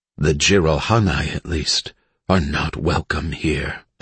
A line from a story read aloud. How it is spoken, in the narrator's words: Elise said softly